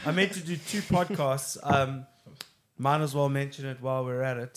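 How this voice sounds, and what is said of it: Hoarse, strained voice. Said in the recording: “I've got a little thing in my throat ... You're losing your voice there ... I've been sick for like 2 weeks”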